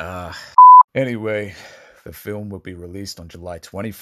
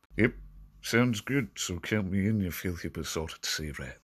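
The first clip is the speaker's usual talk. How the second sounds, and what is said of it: Poor Jack Sparrow impression. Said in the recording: “terrible Jack Sparrow impression”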